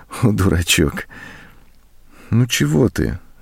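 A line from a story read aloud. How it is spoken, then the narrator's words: Said tenderly. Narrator (Russian): ласково сказала она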